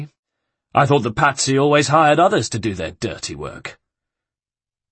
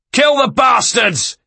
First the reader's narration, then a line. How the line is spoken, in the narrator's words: He bellowed